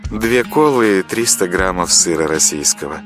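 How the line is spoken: Languid voice, cashier. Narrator (Russian): томным голосом произнесла кассирша

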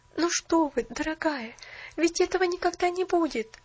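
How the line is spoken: Exclaimed. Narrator (Russian): воскликнула Поллианна

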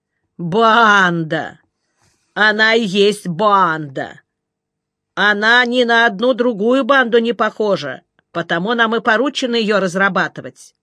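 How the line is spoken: Contemptuous drawl. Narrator (Russian): протянул презрительно

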